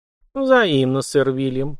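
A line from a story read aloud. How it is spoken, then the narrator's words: Cooing. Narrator (Russian): проворковала графиня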